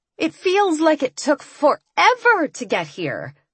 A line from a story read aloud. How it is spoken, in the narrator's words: Kat said in a chipper tone